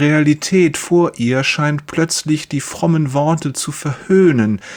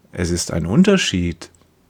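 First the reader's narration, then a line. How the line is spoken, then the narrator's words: Gentle. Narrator (German): sagt sanft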